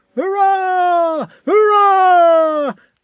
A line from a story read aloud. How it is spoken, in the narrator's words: shouted the crowd again